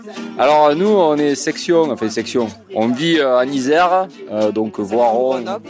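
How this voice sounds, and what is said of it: Cévennes regional French accent. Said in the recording (French): “vu mon accent, je suis pas du tout de Grenoble, je suis Sévenol”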